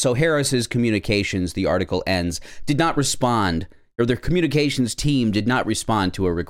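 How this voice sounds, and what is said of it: Usual voice. Nothing is said of it.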